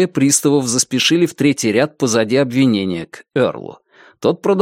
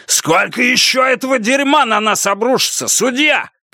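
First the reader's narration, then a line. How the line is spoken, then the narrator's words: Shouting. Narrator (Russian): крикнул Эрл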